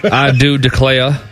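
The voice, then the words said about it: Southern twang. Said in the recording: “You can put a little twang on that.”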